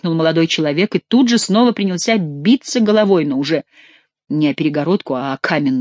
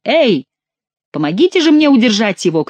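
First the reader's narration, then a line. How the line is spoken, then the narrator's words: Shout. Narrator (Russian): крикнул Генрих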